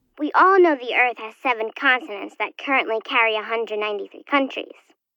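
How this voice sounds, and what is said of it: Young child's voice. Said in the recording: “You sound so young.”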